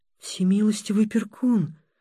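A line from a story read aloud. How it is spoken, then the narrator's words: Whisper. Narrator (Russian): прошептала ненагляда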